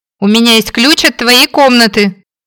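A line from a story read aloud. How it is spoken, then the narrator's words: Shouted after someone. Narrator (Russian): крикнула вдогонку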